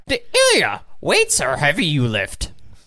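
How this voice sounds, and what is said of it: Strained Yoda impression. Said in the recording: “Can you do a Yoda impression? ... You sound constipated.”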